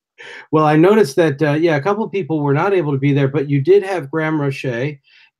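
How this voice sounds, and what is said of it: American accent. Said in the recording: “Forgive my accent. ... I'm an American”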